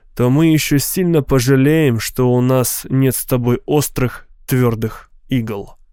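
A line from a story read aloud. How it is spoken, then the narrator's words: Grim. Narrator (Russian): проговорил Ханат мрачно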